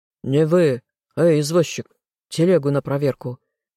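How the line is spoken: Rough bark. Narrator (Russian): Грубо рявкнул страж

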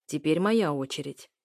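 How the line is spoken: Rough. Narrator (Russian): грубо говорит он

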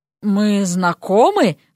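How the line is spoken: Hoarse question. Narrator (Russian): хрипло поинтересовался он

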